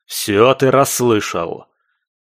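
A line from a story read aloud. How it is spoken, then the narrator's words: Irritated barking supervisor. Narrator (Russian): раздраженно рявкнул куратор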